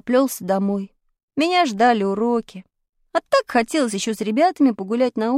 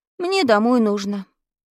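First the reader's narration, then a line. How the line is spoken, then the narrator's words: Sad. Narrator (Russian): грустно сказал я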